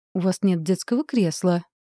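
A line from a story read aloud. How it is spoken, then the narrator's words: Indignant, desperate hiss. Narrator (Russian): возмущенно шиплю Дим Димычу с последней надеждой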